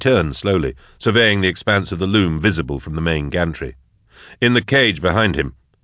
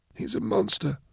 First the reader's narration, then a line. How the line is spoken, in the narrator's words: mumbled Blake